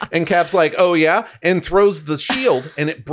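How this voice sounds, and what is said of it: Usual voice. Nothing is said of it.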